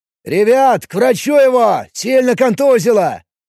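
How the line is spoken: Shout. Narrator (Russian): Кричал эльф

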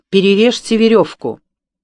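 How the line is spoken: Sharp command. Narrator (Russian): офицер резко проговорил

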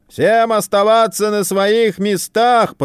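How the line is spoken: Booming big man. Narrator (Russian): прогремел рыжий верзила

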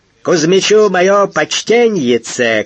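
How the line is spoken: Shouted from afar. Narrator (Russian): крикнул он издалека

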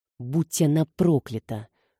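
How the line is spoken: Through gritted teeth. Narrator (Russian): процедил он, стиснув зубы

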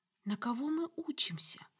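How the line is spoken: Whispered. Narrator (Russian): шепнула соседки

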